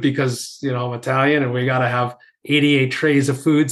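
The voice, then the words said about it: New York accent. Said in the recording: “Anyone who could just tell listening on this pod from my accent, you know, being from New York”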